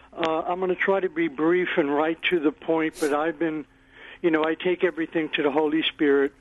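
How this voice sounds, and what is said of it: Hoarse, strained, fading voice. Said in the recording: “losing my voice”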